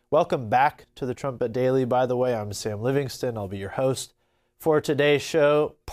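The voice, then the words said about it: Strained, allergy-affected congested voice. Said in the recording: “Pardon my voice. ... The allergy season is in full swing here in Oklahoma ... it has hit a few of us pretty hard. So please bear with me through this.”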